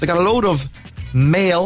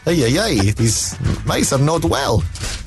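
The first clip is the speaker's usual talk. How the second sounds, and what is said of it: Put-on Spanish accent. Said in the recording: “In a, in a Spanish accent”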